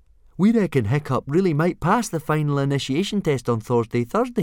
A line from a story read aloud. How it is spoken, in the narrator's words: said Fishlegs excitedly